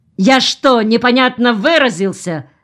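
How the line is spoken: Barked. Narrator (Russian): рявкнул Чеснухин

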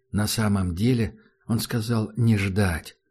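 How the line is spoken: Soft. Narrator (Russian): мягко произнес Таджик

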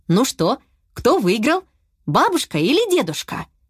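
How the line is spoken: Plain. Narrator (Russian): спросил папа

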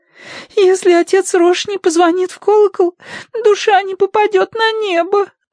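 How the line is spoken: Sobbing. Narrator (Russian): разрыдалась она

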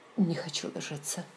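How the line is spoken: Breathy exhale. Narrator (Russian): выдохнула

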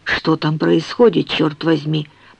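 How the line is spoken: Muttering. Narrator (Russian): пробормотал Артемис

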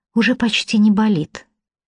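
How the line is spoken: Soft. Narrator (Russian): мягко говорит Лина

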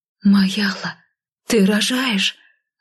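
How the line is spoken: Breathed out. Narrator (Russian): Выдохнула я

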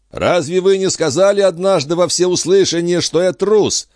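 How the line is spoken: Young man shouting reply. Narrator (Russian): прокричал юноша в ответ

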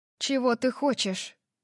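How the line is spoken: Even-voiced question. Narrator (Russian): спросила я ровным голосом

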